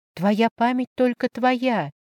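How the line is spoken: Whispered. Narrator (Russian): прошептала я

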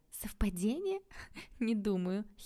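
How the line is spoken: Giggling. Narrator (Russian): хихикнула подруга

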